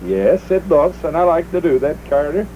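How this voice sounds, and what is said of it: Put-on Nordic accent. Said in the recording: “Your Nordic accent.”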